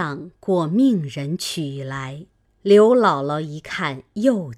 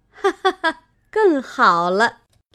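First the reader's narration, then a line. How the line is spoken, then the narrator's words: Laughing. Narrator (Chinese): 凤姐儿笑道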